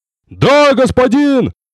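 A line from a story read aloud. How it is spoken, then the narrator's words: Warrior shouting reply. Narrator (Russian): прокричал в ответ воин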